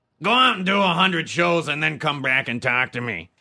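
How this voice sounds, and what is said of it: Impression of Louis Anderson. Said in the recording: “my weird Corolla-esque impersonation of Louis Anderson”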